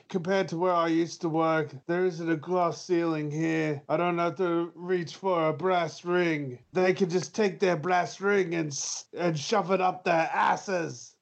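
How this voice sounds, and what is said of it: Imitates another person's voice. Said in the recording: “my horrible Miro impression.”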